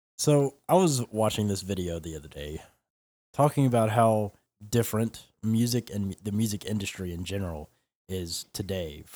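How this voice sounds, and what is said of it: Unwell, slightly odd-sounding voice. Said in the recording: “I'm a little under the weather, so sorry if I sound a little weird.”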